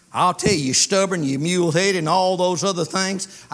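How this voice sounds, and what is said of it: Country boy accent. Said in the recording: “I talk country boy English”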